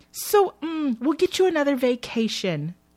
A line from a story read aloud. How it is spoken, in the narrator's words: Trish exclaims